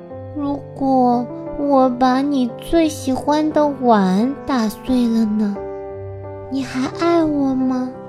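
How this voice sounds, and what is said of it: Quiet, hushed child's voice. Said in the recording (Chinese): “小声”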